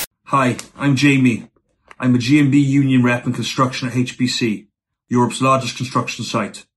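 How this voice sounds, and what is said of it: Thick British working-class accent. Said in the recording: “a very uh, thick working class accent.”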